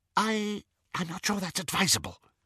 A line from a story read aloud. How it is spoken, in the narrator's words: whispered Xenophilius